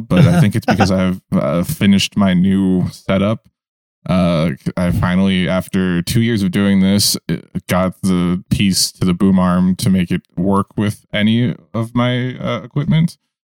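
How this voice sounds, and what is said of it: Calm public-radio announcer voice. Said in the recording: “talking in my NPR voice now”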